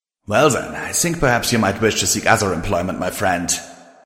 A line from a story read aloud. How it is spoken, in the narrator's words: he said, chuckling